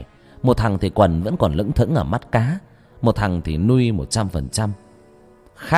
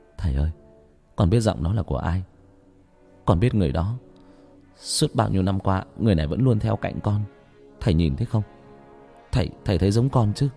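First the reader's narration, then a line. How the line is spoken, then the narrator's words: Whisper. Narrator (Vietnamese): thì thào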